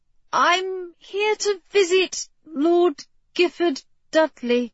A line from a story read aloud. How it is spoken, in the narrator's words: she said hesitantly